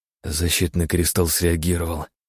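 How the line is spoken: Whispered. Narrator (Russian): прошептала она

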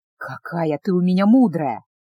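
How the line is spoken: Hot breathy whisper. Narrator (Russian): жарко выдохнул он в смуглое ушко

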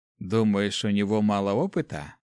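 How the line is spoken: Annoyed sigh, pause, question. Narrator (Russian): Парень с досадой вздохнул, выдержал паузу в несколько секунд и спросил

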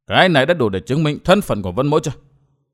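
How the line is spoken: Cold. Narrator (Vietnamese): Vân Thiên Nhạc ... chàng lạnh lùng nói

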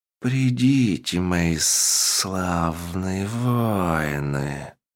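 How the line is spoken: Sepulchral voice. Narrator (Russian): Загробным голосом сказал он

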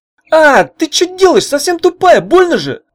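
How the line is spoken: Furious yell. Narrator (Russian): разъяренно завопил Савант

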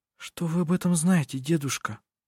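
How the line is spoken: Whisper. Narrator (Russian): прошептала она

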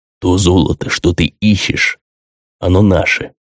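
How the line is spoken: Sighing, patient, as to slow listener. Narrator (Russian): вздохнув, словно беседуя с непонятливым, сказал Мамон

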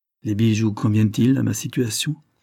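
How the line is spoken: Said sadly. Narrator (French): lui dit-elle tristement

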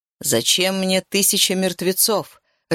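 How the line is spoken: Growling. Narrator (Russian): рычал Исмарис

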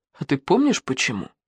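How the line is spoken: Sad question. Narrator (Russian): посмотрел печально и спросил

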